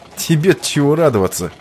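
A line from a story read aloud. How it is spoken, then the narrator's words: Snorting. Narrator (Russian): хмыкнул Иван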